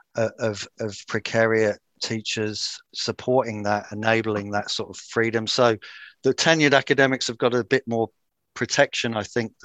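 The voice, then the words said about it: British accent. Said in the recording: “in the UK, I mean, you probably hear from my accent”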